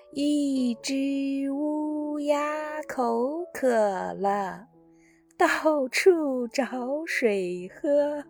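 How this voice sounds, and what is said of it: Slow word-by-word recitation. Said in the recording (Chinese): “小时候读课文，咱们都是一字一句的读，就像这样”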